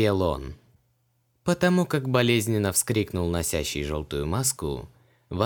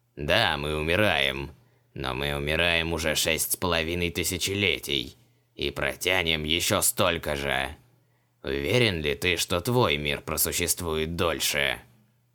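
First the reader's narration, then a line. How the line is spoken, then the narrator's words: Spiteful creak, masked monster. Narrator (Russian): Злобно проскрипел монстр из-под маски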